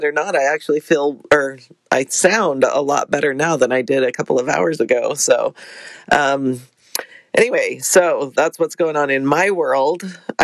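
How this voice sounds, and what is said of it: Scratchy voice from a cold. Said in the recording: “I woke up this morning with a cold ... my voice is a bit scratchy”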